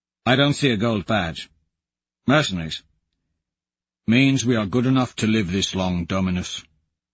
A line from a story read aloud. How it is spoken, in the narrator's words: Valentin says flatly